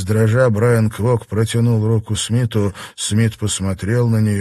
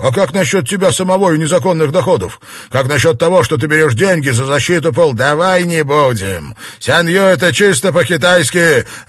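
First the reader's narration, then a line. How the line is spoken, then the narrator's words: Barked. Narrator (Russian): Рявкнул Смит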